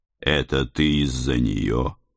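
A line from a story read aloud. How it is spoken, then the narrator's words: Quiet question. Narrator (Russian): тихо спросил я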